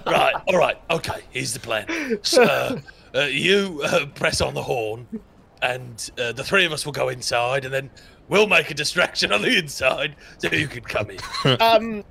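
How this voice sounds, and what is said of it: Dramatically changed put-on accent. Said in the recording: “your voice has changed. Your accent changed quite dramatically.”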